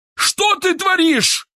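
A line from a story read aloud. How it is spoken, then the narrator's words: Yell. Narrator (Russian): заорал Киселев, и его лицо мгновенно стало багровым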